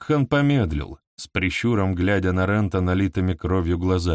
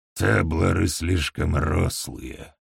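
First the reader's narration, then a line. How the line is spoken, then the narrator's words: Muttering. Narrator (Russian): пробормотал он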